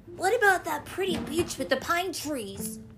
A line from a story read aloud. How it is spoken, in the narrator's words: Little Toot asked eagerly